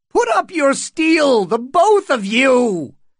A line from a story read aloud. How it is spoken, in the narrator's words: Butterwell screeched